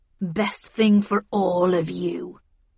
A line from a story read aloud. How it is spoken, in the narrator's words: growled Heathcliff